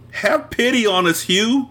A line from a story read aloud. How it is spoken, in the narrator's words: wailed